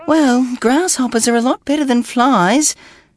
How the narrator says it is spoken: his mother sighed

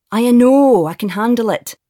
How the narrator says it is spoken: Tim growled at his brother

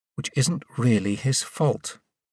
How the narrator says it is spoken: Katie added quietly

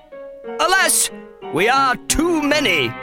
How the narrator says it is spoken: cried Isidore's daddy

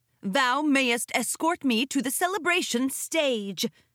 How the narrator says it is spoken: Princess Luna bellowed at the guards

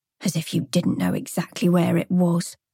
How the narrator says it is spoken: added under her breath

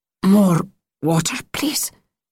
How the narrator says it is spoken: rasped

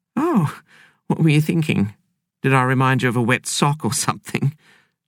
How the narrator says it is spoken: Jean replied with a laugh

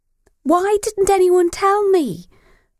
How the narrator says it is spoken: Beth wanted to yell

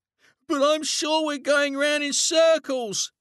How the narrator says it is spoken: he shouted

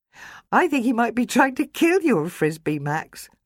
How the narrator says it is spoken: Lila giggled

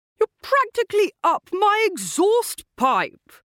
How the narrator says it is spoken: he shouted at the Aston Martin's driver

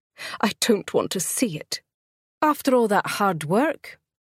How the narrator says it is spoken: Effie exclaimed in disbelief

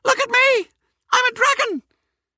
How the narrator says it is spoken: jumped up and down, squeaking

